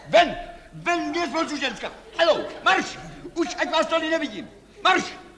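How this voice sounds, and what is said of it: Shouting angrily. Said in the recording (Czech): “Nekřičte!”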